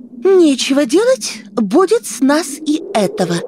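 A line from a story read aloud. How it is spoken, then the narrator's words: Babbling. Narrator (Russian): лепетала Оксана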